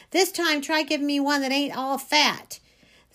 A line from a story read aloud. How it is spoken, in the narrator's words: hollering